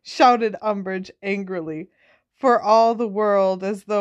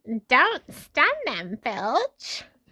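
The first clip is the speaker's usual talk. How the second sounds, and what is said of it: Put-on character voice, not quite right. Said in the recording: “Why can't I do her voice properly?”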